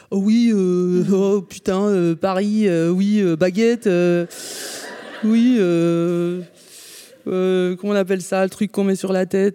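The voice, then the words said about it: Caricatured French accent. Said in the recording (French): “si les Québécois faisaient les Français, ils feraient”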